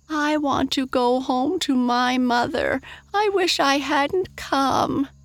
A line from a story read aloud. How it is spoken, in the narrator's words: wailed Mary Virginia